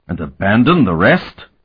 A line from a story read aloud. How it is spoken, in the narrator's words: Noshan exclaimed